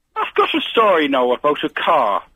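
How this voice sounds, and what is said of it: Very poor put-on accent. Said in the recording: “This is the worst Scottish accent I've ever heard in my life. ... I'm not Scottish, I'm Irish.”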